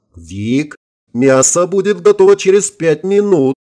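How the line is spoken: Purring voice from above. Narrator (Russian): Мурлыкающий голос Линды, раздавшийся откуда-то сверху

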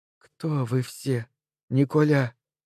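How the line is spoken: Breathless. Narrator (Russian): выдохнула она

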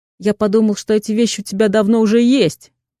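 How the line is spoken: Spoken amid laughter. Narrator (Russian): проговаривает Саша под взрыв всеобщего хохота

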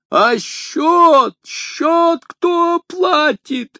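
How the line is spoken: Host yelling. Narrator (Russian): завопил хозяин

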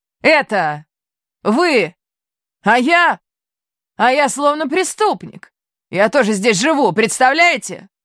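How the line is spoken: Shout. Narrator (Russian): закричал

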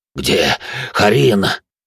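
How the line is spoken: Exhausted wheeze. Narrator (Russian): просипел мой провожатый, которого этот долгий путь изрядно вымотал

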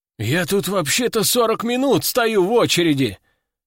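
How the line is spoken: Exclamation. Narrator (Russian): воскликнул кто-то

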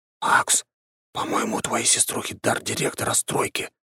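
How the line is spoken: Whisper. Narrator (Russian): прошептал мне княжич

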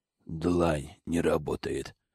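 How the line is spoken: Terrified whisper. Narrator (Russian): прошептал Зак в ужасе

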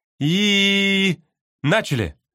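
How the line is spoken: Exclaimed. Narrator (Russian): воскликнула она

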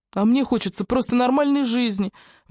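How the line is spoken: Tearful exclamation. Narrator (Russian): воскликнул Джастин со слезами на глазах

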